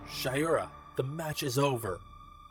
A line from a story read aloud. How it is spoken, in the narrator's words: Reed shouts